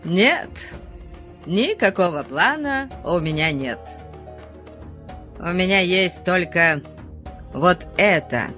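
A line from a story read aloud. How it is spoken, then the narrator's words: Cheerful reply. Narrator (Russian): весело ответил Конан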